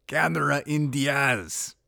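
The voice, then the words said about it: Bad Arnold Schwarzenegger impression. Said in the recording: “gotta use my Arnold Schwarzenegger voice ... terrible Arnold Schwarzenegger impression”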